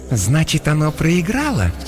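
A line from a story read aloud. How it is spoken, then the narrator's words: Insinuating question. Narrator (Russian): вкрадчиво спросила Иокаста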